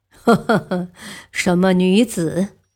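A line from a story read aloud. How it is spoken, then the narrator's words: Startled, laughing with double meaning. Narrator (Chinese): 太宗 暗自吃惊，语带双关的笑道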